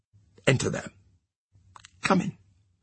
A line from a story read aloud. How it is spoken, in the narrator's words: he softly called